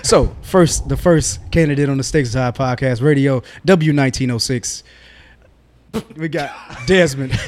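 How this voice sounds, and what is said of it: Radio announcer voice. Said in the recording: “I got to go into my radio voice.”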